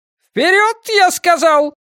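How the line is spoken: Yelling. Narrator (Russian): заорал Нортон

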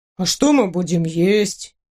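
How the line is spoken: Glum question. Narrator (Russian): уныло спросил принц

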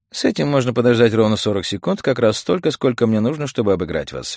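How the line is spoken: Cheerful. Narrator (Russian): весело сказал Битти

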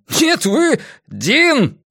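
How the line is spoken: Yell. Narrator (Russian): заорал я

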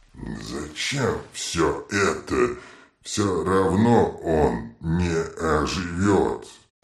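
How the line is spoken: Muttering. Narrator (Russian): бормотал вулкан

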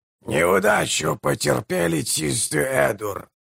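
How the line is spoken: Hoarse proclamation. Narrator (Russian): хрипло провозгласил он

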